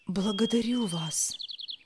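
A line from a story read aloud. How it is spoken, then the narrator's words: Grateful whisper. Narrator (Russian): прошептал Мати, когда понял, что произошло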